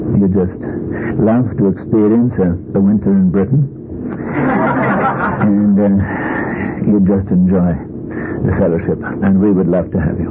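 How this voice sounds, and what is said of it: British accent. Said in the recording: “a British accent”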